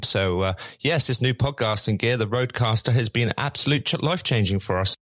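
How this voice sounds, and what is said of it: Posh English accent. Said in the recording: “I'm actually a rich middle-class Englishman ... So we're going to drop the English accent, the posh one, and stick with what I normally go with”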